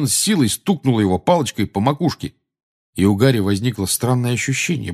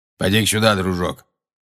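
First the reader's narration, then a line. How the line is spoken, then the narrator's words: Grumble. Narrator (Russian): проворчал Грюм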